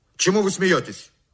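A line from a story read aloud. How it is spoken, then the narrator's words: Shaky angry shout. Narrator (Russian): Закричал я на лакея, чувствуя, как лицо мое бледнеет и губы невольно подергиваются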